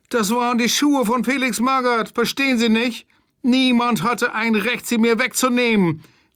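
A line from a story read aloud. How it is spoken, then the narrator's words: Whining, tearful. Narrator (German): jammerte mit weinerlicher Stimme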